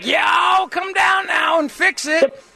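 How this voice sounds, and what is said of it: Mocking fake Southern accent. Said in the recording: “The phony Southern accents and the yelling all the time, that fake, like,”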